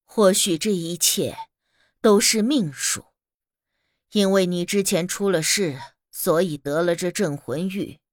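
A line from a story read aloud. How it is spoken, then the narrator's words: Sighing exclamation. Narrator (Chinese): 大姑感叹道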